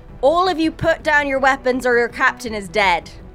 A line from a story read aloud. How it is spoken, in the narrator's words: yell out